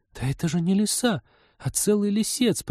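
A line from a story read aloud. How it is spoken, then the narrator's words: Stunned girl babbling. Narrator (Russian): потрясенно пролепетала девушка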